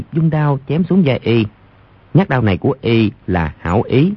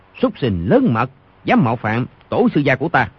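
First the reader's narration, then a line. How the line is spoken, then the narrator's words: Shout. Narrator (Vietnamese): Rồi quát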